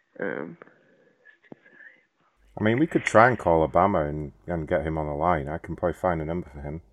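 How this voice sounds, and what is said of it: London English accent. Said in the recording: “From London originally. ... I don't know if you can tell from the accent”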